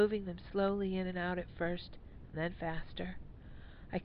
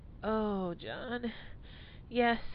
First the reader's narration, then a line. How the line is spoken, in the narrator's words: moaned, feeling it begin, waves of pleasure overtaking me